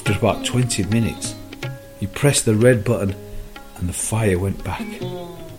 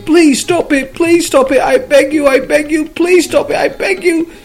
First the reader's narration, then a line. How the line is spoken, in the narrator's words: the cop started screaming